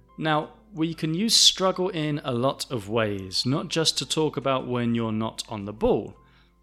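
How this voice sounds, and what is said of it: Southern English accent. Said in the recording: “I pronounce the L at the end of ball less than other people because I'm from the south of England. This is part of our accent.”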